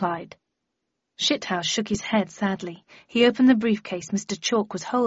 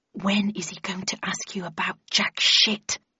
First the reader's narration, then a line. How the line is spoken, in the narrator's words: asked Landon in an unsubtly loud whisper